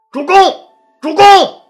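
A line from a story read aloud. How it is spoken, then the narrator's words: Loud shout. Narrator (Chinese): 曹参大喊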